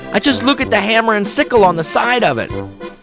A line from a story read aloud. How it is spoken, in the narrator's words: Weidenhammer exclaimed